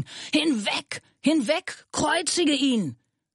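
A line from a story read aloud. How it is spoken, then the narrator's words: Crowd screaming. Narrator (German): Sie aber schrien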